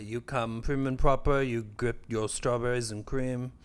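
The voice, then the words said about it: Speaks in a put-on accent. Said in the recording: “What accent is that?”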